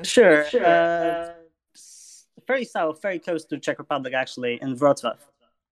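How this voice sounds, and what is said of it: Polish accent. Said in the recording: “I hear you have an accent ... you have an accent to me ... I'm from Poland”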